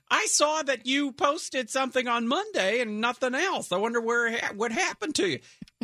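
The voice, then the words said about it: Impression of parents, Huell Howser-style voice. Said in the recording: “I'm doing an impression of my parents ... My father is Huell Hauser”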